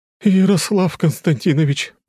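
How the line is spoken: Exclaimed after running up. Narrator (Russian): воскликнула подбежавшая тетя Женя

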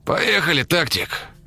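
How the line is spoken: Hoarse, curt. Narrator (Russian): хрипло бросил он

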